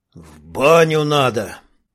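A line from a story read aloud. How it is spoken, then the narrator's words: Gloomy sneezing reply. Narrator (Russian): чихнул в ответ чернявый, мрачно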